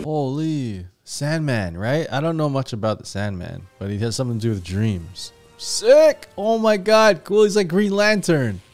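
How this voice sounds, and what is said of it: Excited yelling. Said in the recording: “I'm yelling a lot”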